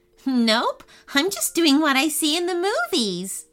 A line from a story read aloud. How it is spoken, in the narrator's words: Ava chuckled